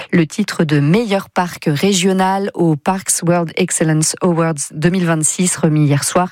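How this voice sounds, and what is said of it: Fine English accent on English words. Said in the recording (French): “Je suis subjugué par votre accent anglais. Formidable.”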